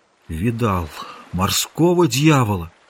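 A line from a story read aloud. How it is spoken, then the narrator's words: Muffled, hollow voice. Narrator (Russian): Ныряльщик сказал глухим голосом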